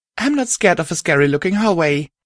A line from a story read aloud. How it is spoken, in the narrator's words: I exclaimed